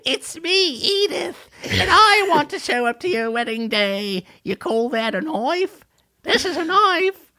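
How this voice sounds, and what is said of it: Australian-sounding Edith character impression. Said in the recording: “That's a perfect Edith impression. Bad yes. Australian, but a perfect Edith.”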